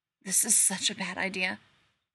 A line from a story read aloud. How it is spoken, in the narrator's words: Rodney whispers shakily